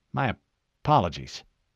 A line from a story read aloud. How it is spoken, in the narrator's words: Ackerson muttered